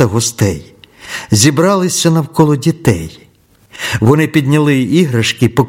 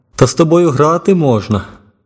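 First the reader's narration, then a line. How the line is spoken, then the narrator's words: Laughing. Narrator (Ukrainian): Китаєць розсміявся і сказав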